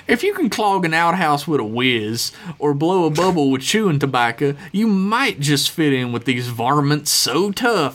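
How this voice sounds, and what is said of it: Exaggerated Southern good old boy accent. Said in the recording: “your amazing good old boy accent”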